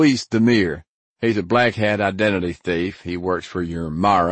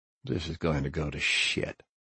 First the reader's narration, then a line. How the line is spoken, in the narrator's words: I muttered to Dwayne